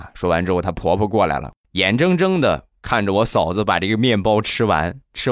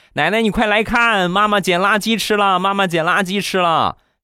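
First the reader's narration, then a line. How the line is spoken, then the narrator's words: Child shouting while running. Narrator (Chinese): 他儿子一边跑一边喊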